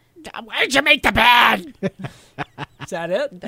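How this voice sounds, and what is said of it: Imitates another person's voice. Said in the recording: “do my voice ... When you imitate me, do my voice.”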